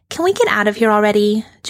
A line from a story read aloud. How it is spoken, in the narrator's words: Joanna says impatiently